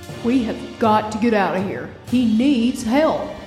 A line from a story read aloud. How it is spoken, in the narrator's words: says Tomo